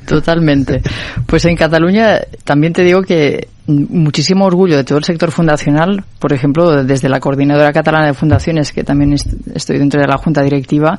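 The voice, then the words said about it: Catalan-accented Spanish. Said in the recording (Spanish): “Perdonad mi acento catalán ... todas mis L's y mi acento lo vais ahí a notar”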